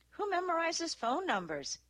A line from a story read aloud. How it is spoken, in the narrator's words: Izzy asked with a half laugh